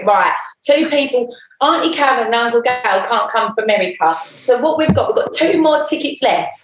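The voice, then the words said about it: Imitated East End / Essex accent. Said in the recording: “in a typical East End / Essex accent.”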